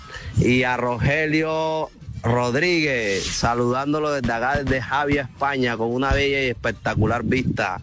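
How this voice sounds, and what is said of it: Colombian coastal Spanish accent. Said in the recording (Spanish): “este man sí tiene el acento que es. Veo que es de la costa, porque ajá, porque está hablando así y le falta la F”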